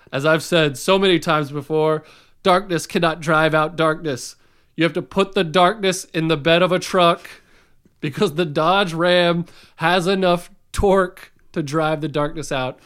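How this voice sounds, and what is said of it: Imitates another person's voice, badly. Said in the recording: “That's a weird MLK impression. ... That is a really bad MLK impression.”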